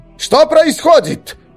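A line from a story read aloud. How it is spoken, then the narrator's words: Shout, strange accent. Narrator (Russian): прокричал на готике с каким-то странным акцентом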